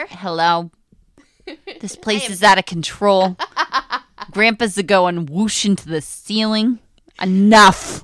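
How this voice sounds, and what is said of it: Unidentified put-on accent. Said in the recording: “I don't know what accent that was, but I love it.”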